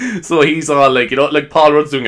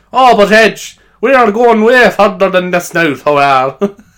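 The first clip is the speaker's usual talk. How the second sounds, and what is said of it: Deliberately bad Irish accent. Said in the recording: “doing a terrible Irish accent”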